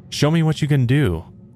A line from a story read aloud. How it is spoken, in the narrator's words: Gary entered the bathroom and yelled